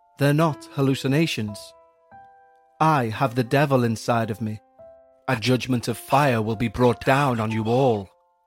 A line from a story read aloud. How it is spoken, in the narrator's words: said calmly